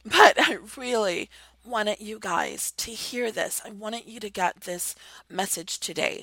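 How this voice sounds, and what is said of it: Hoarse, worn-out voice. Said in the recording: “My voice is worn out and I'm hoarse as fuck”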